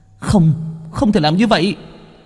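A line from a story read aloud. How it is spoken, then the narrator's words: Shout from below. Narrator (Vietnamese): Biện Ngọc đứng ở bên dưới mà hét lên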